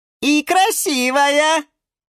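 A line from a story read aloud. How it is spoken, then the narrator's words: Shout from inside aquarium. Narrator (Russian): закричал из аквариума Лотос Сушил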